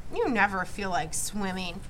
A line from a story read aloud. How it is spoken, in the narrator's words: Joel muttered